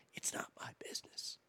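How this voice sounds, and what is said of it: Whispering. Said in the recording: “I can I can whisper too”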